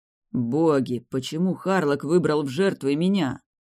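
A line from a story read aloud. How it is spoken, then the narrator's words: Groan. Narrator (Russian): простонал Рэй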